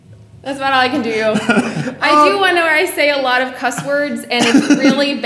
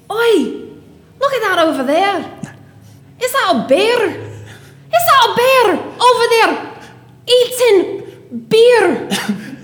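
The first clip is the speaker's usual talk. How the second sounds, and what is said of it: Put-on Scottish accent. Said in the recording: “My Scottish one's pretty good... I butcher your accent.”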